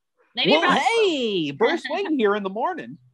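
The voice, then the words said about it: Cheesy radio-host voice. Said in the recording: “He has like a radio voice. ... radio personality.”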